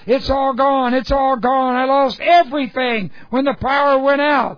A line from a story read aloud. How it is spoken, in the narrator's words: Satan started searching frantically, screaming